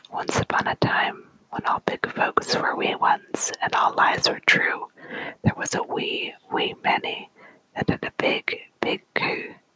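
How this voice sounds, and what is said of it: Whispered put-on storytelling accent. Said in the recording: “read it with the proper accent, but I hope you forgive me if I don't get it quite right ... speaking in different accents, although it's a little harder to do in a whisper”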